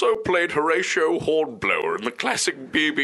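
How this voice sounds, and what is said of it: Usual voice. Nothing is said of it.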